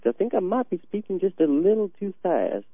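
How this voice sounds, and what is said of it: Put-on Southern accent, slightly fast. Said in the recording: “I've been practicing my southern accent too as well, and I'm not entirely sure I got it quite correct ... You're a little too fast ... you just slow it down a little. Make it a little more ponderous.”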